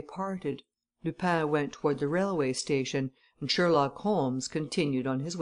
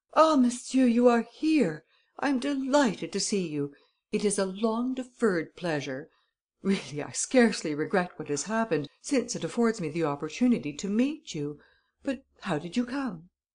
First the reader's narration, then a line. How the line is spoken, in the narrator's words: Devanne exclaimed with much gusto